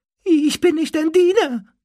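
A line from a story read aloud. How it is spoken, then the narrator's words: Squeaking. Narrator (German): quiekte er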